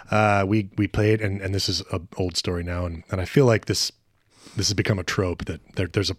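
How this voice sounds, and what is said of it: Raspy, dry voice. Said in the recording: “You sound a little sex workery... It's raspy... I'm a little dry.”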